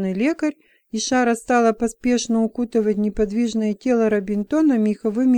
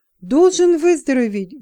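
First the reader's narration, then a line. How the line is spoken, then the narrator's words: Fervent exclamation. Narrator (Russian): горячо воскликнула Шара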